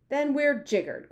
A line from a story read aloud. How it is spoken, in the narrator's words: cried the Army General